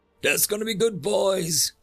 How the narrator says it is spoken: yelled

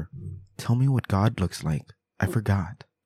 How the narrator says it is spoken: our three-year-old whispered in her ear

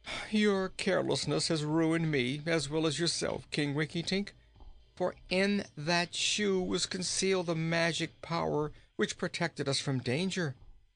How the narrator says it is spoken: said the boy in a despairing tone of voice

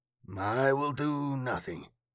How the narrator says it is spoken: he croaked

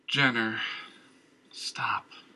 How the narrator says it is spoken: Christian murmured

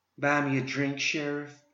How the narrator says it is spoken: breathed

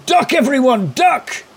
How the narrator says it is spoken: Morley just shouts out

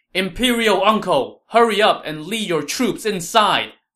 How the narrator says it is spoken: Wei Yan shouted to Liu Bei

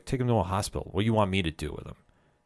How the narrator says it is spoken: coldly is like

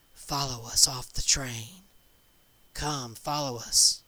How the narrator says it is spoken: The old couple, the man said in a quiet but urgent voice

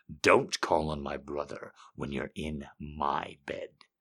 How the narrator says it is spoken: he hissed

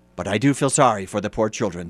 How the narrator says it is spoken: said the man

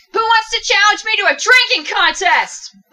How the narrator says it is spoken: yelling

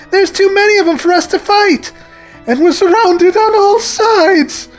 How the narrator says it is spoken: Antoine cried in a panic

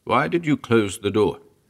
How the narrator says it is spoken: Startled, demand sharply

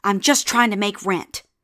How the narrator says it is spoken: Before she could stop herself, she blurted out

